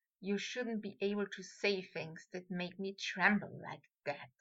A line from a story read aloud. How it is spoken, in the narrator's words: he whispered